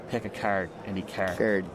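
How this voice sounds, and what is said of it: Put-on Cork Irish accent. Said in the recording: “Trying to get my best Cork accent ... Sounds like Roy Keane”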